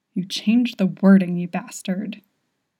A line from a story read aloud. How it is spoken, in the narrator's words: he hisses